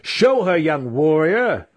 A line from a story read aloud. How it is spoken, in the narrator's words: yelling